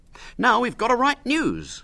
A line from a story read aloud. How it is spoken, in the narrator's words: said William cheerfully